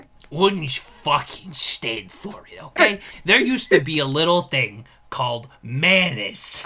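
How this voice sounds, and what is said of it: Impression of a comedian's funny voice. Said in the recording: “it just turned into if Gilbert Gottfried was in a Scorsese film ... he has a funny voice”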